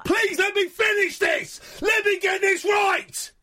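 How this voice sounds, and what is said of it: Shouting. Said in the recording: “I'm sorry for shouting now. I'm sorry for shouting.”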